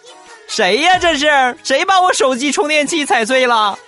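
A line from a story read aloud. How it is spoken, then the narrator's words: Sudden loud shout. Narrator (Chinese): 有一哥们儿就大喊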